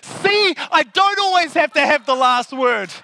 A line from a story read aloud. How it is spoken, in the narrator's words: so excited that I shouted out